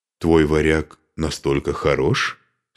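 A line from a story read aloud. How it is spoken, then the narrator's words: Plain. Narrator (Russian): спросила она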